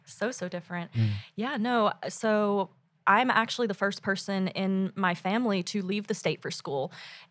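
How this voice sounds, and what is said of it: American southern accent. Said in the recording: “Hence the accent, the southern.”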